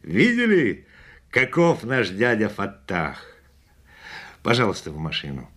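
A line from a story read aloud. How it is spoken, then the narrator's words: Laughing. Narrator (Russian): Засмеявшись, он сказал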